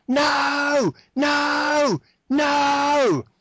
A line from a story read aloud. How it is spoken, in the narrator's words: the snake screams